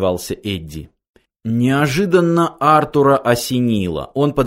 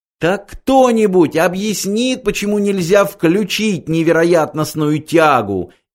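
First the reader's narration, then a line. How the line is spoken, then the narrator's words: Hysterical shout. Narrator (Russian): истерически закричала Триллиан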